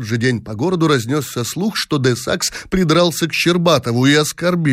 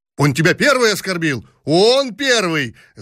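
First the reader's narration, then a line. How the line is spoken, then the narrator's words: Shouting in chorus. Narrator (Russian): закричали хором всадники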